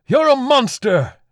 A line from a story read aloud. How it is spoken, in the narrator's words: He shouted